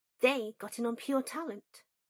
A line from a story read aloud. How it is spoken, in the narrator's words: Granger said sharply